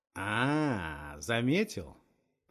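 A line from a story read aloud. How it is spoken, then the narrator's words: Drawn-out. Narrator (Russian): Протянул Нахтигал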